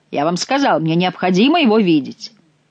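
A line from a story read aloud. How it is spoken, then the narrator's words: Angry commanding tone. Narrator (Russian): Маленький человечек рассердился и говорил со мной повелительным тоном, не допускавшим возражений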